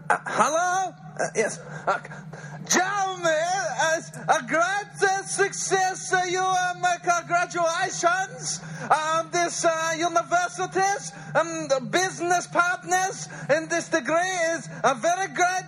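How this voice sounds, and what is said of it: Borat impression. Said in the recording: “did a hilarious impersonation of Borat”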